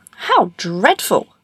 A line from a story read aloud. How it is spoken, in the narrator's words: exclaimed the king and the princess together